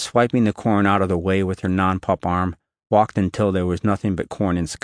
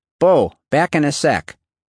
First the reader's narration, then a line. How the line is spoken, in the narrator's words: Callie shouted